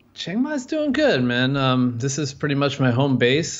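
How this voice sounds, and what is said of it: American accent. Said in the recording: “I'm American, if you can't tell from the accent”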